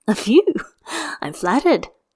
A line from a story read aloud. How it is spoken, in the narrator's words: He laughs and says